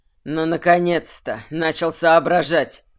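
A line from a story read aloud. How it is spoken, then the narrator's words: Wry snort. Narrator (Russian): хмыкнул Тверен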